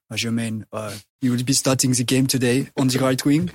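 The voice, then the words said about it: Impression of Arsene Wenger. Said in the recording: “It's good impression.”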